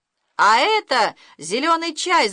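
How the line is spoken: Shouting. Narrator (Russian): закричал Леша

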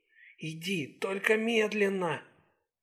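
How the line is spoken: Coaxing, slow, deliberate. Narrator (Russian): Сакс обратилась к нему вкрадчивым голосом, раздельно выговаривая слова

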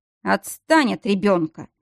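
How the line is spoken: Disapproving grumble. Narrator (Russian): неодобрительно проворчал Нирайн

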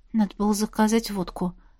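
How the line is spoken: Muttered under breath. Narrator (Russian): Машка пробормотала под нос что-то вроде

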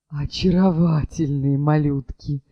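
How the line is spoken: Sighing, recovering composure. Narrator (Russian): Вздохнул экскурсовод, окончательно приходя в себя

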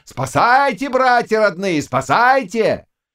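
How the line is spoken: Piglet-like squealing shout. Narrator (Russian): ты визжал, как подсвинок, кричал

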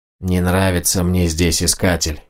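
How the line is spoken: Grumbling. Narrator (Russian): проворчал Больд

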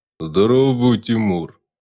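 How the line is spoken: Deep bass, bear. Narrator (Russian): пробасил медведь

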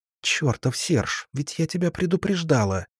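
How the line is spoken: Hissing like a snake. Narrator (Russian): змеей прошипела Латея

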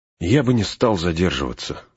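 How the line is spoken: Sigh. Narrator (Russian): вздохнул Леголас

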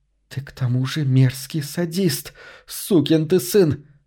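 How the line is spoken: Angry hiss. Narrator (Russian): прошипела разгневанная Кассандра

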